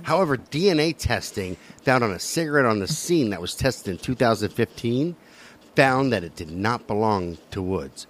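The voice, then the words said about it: Noticeable regional accent. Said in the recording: “Shut up about my accent.”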